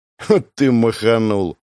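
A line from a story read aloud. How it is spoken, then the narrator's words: Snorted. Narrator (Russian): хмыкнул Павел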